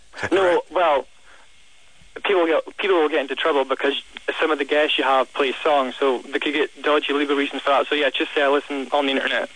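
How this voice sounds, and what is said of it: Delightful accent. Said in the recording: “you have such a delightful accent. It's so nice.”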